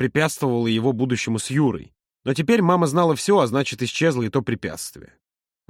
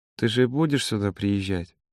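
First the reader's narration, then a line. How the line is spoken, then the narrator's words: Quiet question. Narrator (Russian): тихо спросила она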